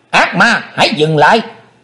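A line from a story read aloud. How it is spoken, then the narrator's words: Shouted. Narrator (Vietnamese): tiếng quát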